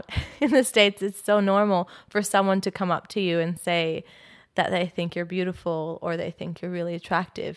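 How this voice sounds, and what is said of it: American accent. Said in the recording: “I'm obviously not Australian, if you can tell by my accent ... I'm from California”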